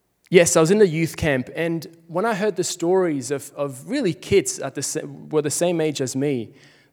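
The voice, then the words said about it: Swiss accent in English. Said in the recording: “Switzerland, where I'm from. That's where the accent is from, in case you're like, why is this guy talking so weirdly?”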